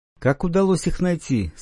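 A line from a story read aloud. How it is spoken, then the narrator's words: Plain question. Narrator (Russian): спросил Рагдиона Лирн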